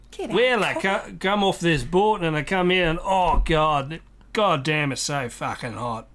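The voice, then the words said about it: Slow drawling Australian accent. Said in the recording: “Australian is basically Cockney slowed down because of heat exhaustion ... I love our accent”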